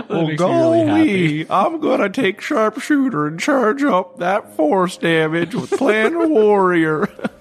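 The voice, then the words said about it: Silly put-on character voice. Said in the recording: “turn in a silly voice”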